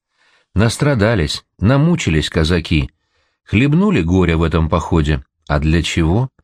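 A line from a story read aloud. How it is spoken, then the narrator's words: Quiet musing to oneself. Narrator (Russian): так же тихо, кажется, даже не мне, а отвечая своим мыслям, говорит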